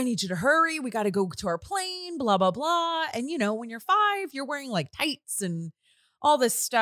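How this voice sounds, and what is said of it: Usual voice. Nothing is said of it.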